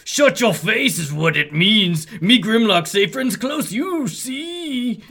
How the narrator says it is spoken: Grimlock roars angrily

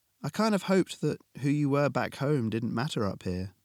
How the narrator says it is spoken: Alex said, sighing

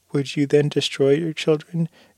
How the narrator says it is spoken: cried the wife

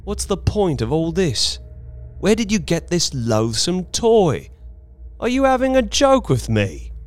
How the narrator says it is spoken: I spoke sharply

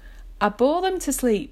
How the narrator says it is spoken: says cheerfully

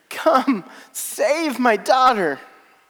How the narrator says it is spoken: he pleads

